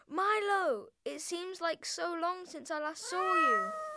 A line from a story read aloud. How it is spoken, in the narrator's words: he exclaimed